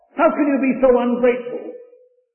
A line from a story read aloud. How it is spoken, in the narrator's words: screamed his mother in horror